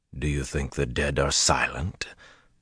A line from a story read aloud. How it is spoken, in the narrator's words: Luce Theron's laugh was rasping